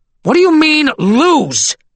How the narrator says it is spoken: screamed Kelson

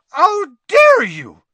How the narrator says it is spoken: shrieked Madame Maxime

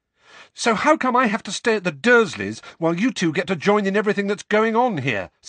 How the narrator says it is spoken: said Harry, the words tumbling over one another in a rush, his voice growing louder with every word

